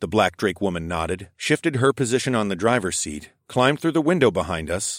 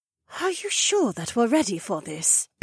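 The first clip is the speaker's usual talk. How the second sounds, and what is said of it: Hushed, quiet voice. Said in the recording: “asked in a hushed voice”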